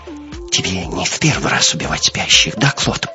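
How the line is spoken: Whisper. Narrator (Russian): прошептала она

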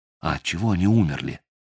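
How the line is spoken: Quiet question. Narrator (Russian): тихо спросил Мотыга

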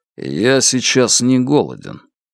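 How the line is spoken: Said calmly. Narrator (Russian): Лун равнодушно спокойно сказал

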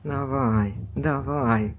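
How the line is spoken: Muttering. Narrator (Russian): бормотал он

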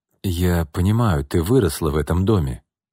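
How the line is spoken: Soft, gentle remark. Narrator (Russian): мягко заметил Артем

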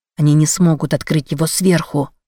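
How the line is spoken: Close hot whisper. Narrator (Russian): шепнул мне Леонард, опаляя горячим дыханием мою шею

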